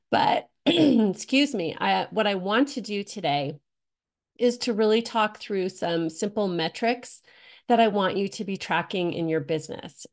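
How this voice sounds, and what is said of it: Raspy, cold-sounding voice. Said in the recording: “apologize for my voice. I'm getting over being sick. So if you hear that raspy, cold sounding voice”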